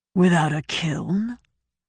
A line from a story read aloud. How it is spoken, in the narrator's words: Gautena said, sounding faintly amused